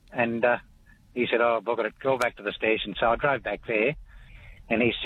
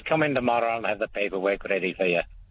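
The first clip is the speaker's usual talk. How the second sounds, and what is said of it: Puts on a character accent. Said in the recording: “a little bit of accent work too with the talkback. I was involved with both characters. ... I've been watching a lot of Outlander, so I'm very familiar with the accent now.”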